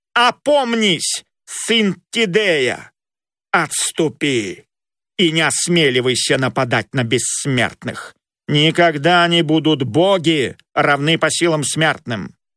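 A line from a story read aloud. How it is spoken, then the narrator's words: Menacing shout. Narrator (Russian): грозно крикнул ему Аполлон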